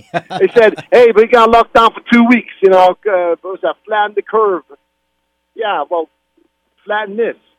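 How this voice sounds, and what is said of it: Put-on New York accent. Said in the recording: “Now you sound like a real New Yorker ... his best New York impression”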